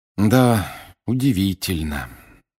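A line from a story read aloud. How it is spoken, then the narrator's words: Heavy sigh. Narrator (Russian): тяжело вздохнул Гарри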